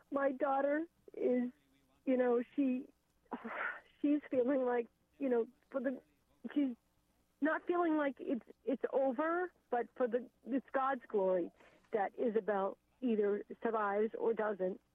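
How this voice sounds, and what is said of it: Emotional, choked-up voice. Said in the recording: “sorry, I'm getting emotional.”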